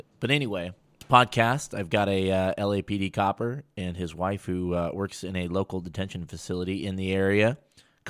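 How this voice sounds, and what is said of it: Hoarse, fading voice. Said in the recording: “I'm losing my voice again”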